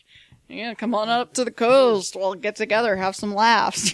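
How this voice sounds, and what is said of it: Imitates a film character's voice. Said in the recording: “my terrible impression”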